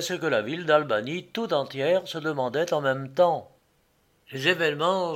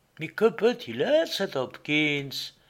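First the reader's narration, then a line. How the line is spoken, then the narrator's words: Plain. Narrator (French): demanda Mistress Melville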